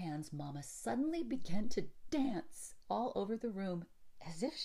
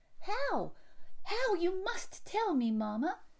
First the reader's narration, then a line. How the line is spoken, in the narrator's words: cried Effie, dancing after her and ready to believe anything possible